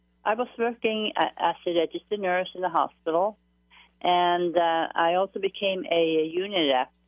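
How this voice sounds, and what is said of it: Norwegian accent. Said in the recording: “a Norwegian accent.”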